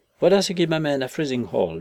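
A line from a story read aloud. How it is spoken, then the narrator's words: Cheerful. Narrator (French): dis-je gaiement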